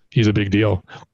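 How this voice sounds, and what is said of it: Ron Burgundy impression. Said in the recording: “I'm going to put on my Ron Burgundy voice.”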